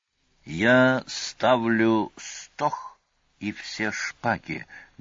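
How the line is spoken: Sepulchral voice. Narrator (Russian): гробовым голосом при полном молчании остальных сообщил Сварог

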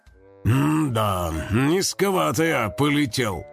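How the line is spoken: Gloomy. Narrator (Russian): мрачно сказал Карыч

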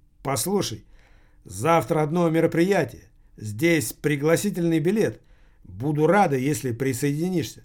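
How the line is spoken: Plain. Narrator (Russian): так сказала Вика

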